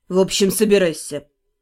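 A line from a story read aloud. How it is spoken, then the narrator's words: Icy, clipped. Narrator (Russian): столь же ледяным тоном отчеканил блондин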